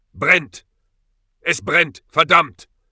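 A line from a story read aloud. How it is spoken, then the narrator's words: Roaring in agony. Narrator (German): brüllte er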